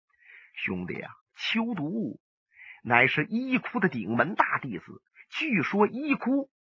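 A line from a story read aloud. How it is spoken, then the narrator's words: Sighing. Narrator (Chinese): 他叹了口气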